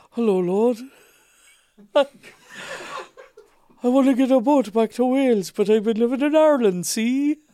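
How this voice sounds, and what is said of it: Welsh accent with Irish lilt. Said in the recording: “So I have an Irish lilt, but a Welsh accent.”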